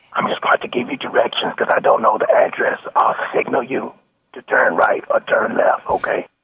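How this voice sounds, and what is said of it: Fake hoarse laryngitis voice. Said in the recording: “pretending to have laryngitis”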